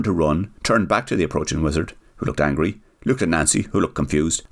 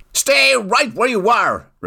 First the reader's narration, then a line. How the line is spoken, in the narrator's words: shouted the rapidly approaching infuriated wizard